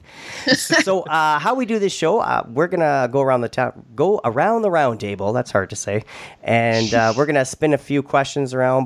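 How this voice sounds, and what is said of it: Canadian accent. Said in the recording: “I'm very Canadian, if you can tell by my accent.”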